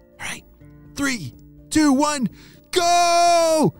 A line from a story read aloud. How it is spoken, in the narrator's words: shouted Weston